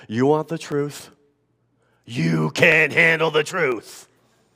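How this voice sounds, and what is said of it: Imitates another person's voice, poorly. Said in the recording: “my best Jack Nicholson impersonation. I know it's horrible.”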